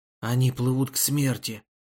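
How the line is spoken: Whisper. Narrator (Russian): прошептал Каримбхай

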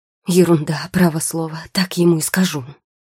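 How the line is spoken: Angry muttering. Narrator (Russian): сердито пробормотала Маргарита

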